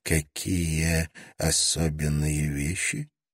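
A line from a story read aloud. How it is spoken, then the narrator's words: Whispered question. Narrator (Russian): тоже шепотом спросил Гордон Чен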